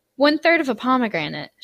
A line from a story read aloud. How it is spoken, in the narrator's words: she said